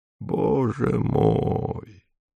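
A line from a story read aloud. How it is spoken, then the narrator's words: Quavering voice. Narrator (Russian): дребезжащим голосом проговорил Иван Иванович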